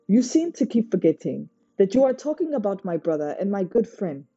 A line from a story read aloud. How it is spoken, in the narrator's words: Sunny snapped